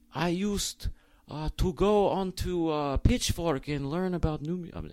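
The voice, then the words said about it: Put-on foreign accent. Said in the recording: “I don't know what kind of accent I'm doing.”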